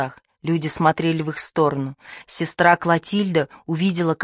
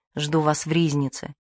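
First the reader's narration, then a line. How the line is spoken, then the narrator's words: Priest, barely audible. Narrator (Russian): сказал кюре, едва слышно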